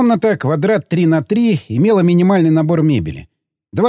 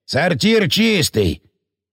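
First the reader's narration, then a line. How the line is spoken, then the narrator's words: Deep, slightly offended. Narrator (Russian): пробасил слегка обиженно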